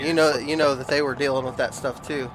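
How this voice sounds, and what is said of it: Northern US accent. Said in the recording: “You had your northern accent again.”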